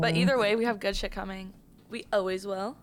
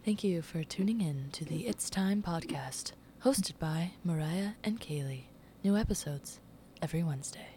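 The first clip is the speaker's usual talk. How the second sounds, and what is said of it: Formal podcast host voice. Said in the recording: “This is my formal podcast voice.”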